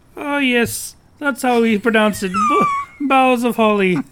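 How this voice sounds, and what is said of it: Loud put-on Irish accent. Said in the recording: “I have to be very loud when I do my Irish accent”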